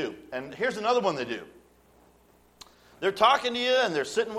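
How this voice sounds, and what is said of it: Usual voice. Nothing is said of it.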